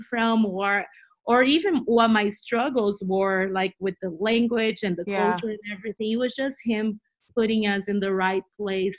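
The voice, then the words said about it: Portuguese-accented English. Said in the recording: “I love the way you speak. I love your accent. You just make everything sound so beautiful and exciting. ... your accent ... Portuguese is my first language”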